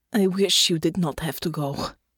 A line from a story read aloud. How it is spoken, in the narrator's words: said, her voice rough